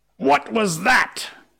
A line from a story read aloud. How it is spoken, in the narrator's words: cried Hook